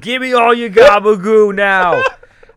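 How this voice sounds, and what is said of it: Put-on New York Italian accent. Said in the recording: “that's how all Italian women sound ... Or New York women ... upstate New York, you've nailed that accent.”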